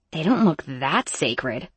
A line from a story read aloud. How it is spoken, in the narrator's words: I muttered to Emmy